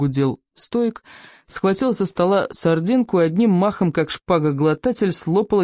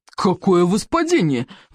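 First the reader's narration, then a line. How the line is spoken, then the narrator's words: Bellowing roar. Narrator (Russian): взревел Стоик обширный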